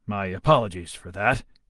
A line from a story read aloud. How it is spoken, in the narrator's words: he grumbled